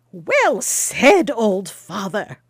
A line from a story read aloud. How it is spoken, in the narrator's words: cried the traveller, laughing